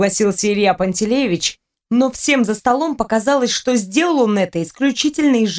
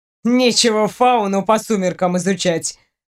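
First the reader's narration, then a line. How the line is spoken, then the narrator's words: Snorting. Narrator (Russian): хмыкнул Ваня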